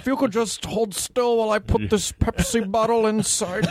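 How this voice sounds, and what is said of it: Bill Cosby impression. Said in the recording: “good imitation ... It is a little Cosby-ish.”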